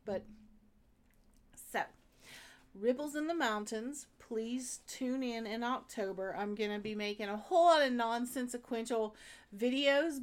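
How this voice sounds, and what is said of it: Southwest Virginia accent. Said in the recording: “the Southwest Virginia accent”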